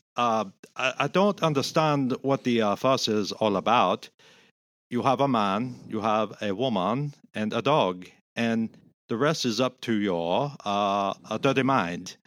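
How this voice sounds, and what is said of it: Put-on German accent. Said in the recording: “his German accent ... I'm just paraphrasing.”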